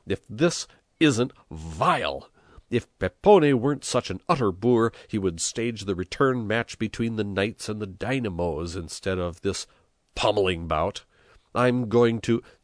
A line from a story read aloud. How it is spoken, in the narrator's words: he exclaimed